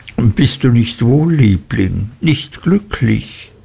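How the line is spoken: Sobbing into shoulder. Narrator (German): schluchzte sie an meiner Schulter

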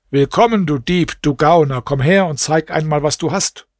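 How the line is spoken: Calling out. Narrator (German): Scheich Ibrahim rief ihm zu

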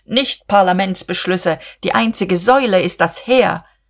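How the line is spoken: Shouted wildly, with sudden vehemence. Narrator (German): rief Buck mit jähem Schwung und noch wilder

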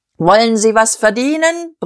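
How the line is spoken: Bellowing like a crier. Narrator (German): brüllte er, wie ein Ausrufer in den Tumult

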